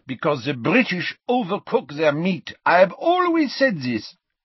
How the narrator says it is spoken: said Fleur happily

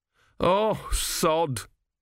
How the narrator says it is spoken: moaned Gurn

